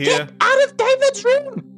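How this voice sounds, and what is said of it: Shrill character voice. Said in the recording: “Your voice was so shrill”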